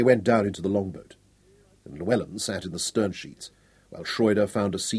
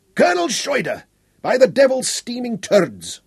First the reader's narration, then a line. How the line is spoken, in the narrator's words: Cumbrae roared as he recognised him